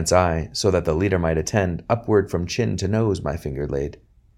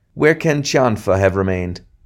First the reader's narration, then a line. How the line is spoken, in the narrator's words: exclaiming